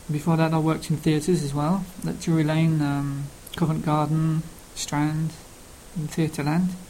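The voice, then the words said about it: Cockney London accent. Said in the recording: “I have a London accent. I don't speak Queen's English ... I speak really with a Londinian accent ... that's why my accent's Cockney”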